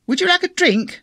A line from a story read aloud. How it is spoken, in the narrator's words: Sally asked in a quite unnecessarily loud voice